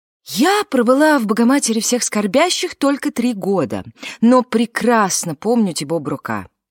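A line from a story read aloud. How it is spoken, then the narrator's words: Excited, agitated. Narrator (Russian): взволнованно начала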